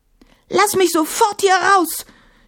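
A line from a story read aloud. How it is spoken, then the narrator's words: Shouting. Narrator (German): schrie sie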